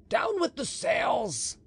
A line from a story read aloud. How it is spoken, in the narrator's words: shouted Donadieu